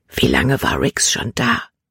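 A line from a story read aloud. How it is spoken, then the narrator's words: Whispered. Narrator (German): flüsterte sie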